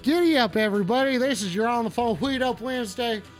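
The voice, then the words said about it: Put-on cowboy accent. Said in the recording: “if you couldn't tell, I am a cowboy. Stop talking about my accent.”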